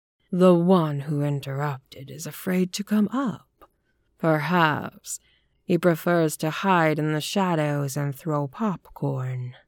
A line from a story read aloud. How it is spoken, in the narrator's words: he said in a purring, mocking voice